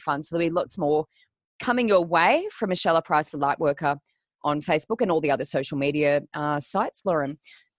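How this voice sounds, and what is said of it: Flat, unwell-sounding voice. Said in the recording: “I'm a little flat. I'm a little unwell today. You can probably hear that in my voice”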